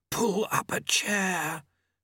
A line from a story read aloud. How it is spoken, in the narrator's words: Famine hissed